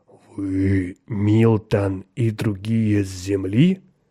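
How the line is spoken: Very clear and slow. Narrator (Russian): Милтон очень четко и медленно заговорил с существом

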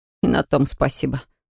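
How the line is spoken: Snorted with strain. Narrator (Russian): фыркнул краснеющий от натуги третьекурсник

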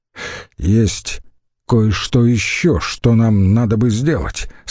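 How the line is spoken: Plain. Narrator (Russian): сказал Критогнат

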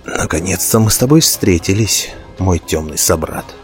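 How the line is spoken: Hoarse, barely restrained angry whisper. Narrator (Russian): хрипло прошептал Келлендил на языке Дроу, еле сдерживая гнев

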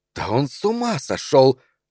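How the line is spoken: Exclaiming. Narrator (Russian): воскликнула она

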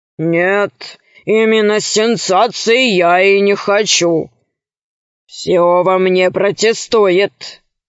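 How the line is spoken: Loud sigh. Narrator (Russian): громко вздохнул Громозека

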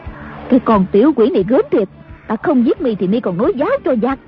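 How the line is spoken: Angry. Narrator (Vietnamese): Đàm bà giận dữ nói

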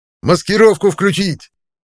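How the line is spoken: Yelling. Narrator (Russian): завопил я

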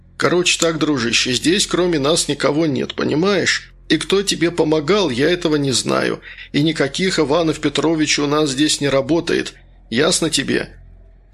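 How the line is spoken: Uncertain. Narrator (Russian): Королев неуверенно сказал

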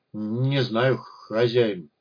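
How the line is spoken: Mumbling. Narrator (Russian): промямлил Гриша

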